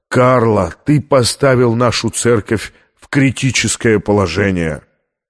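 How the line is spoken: Sad. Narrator (Russian): Мартати печально сказал

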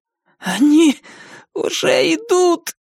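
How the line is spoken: Hoarse rasp. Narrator (Russian): прохрипел он

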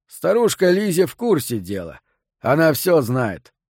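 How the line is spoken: Amused snort. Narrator (Russian): хмыкнул Фрэнк

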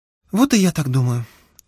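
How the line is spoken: Sighing. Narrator (Russian): вздохнув, сказала Оксана

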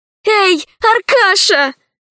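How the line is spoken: Exclaimed. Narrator (Russian): воскликнула Алиса

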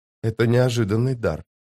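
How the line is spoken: Whisper. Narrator (Russian): прошептала она

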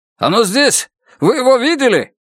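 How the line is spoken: Shouted out. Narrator (Russian): выкрикнул один

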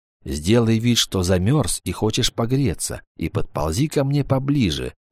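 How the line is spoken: Said quietly. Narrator (Russian): тихо сказал Вольф

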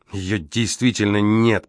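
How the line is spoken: Growling. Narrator (Russian): прорычал Грей

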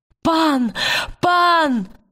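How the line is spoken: Shouted. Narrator (Russian): закричала она

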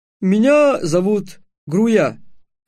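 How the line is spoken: Plain. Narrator (Russian): ответил гном

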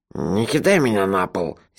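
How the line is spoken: Sleepy angry mutter. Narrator (Russian): сердито буркнул он сквозь сон

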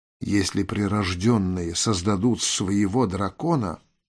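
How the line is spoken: Whispered. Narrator (Russian): прошептала Тель

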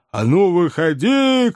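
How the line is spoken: Shouting. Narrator (Russian): кричал кэбмен

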